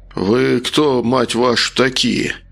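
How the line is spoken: Strained mutter, rising panic. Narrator (Russian): процедил, пытаясь совладать с нарастающей паникой

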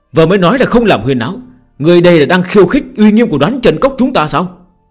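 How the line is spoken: Angry shout. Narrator (Vietnamese): Phương Hành quát lên

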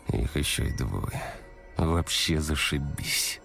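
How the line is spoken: Sighing. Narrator (Russian): Вздохнул Сева

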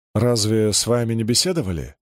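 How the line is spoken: Plain. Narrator (Russian): спросил я

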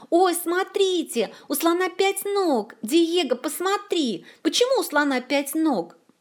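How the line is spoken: Delighted loud yelling. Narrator (Russian): Лола восторженно завопила на весь зоопарк

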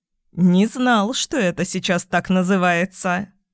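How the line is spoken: Chuckling father. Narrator (Russian): хохотнул папа

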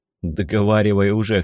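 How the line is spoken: Smirking. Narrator (Russian): хмыкнул я

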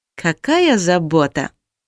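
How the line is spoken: Drawled. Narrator (Russian): протянула я

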